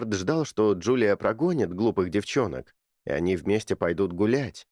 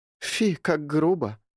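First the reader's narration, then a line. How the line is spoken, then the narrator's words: Sighing. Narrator (Russian): вздохнула вторая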